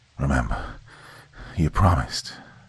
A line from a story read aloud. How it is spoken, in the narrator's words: Colin said weakly through gurgling gasps for air